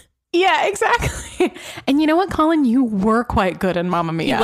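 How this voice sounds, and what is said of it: Usual voice. Nothing is said of it.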